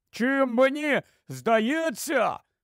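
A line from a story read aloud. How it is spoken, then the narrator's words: Shout after long silence. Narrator (Ukrainian): крикнув Рон після довгої мовчанки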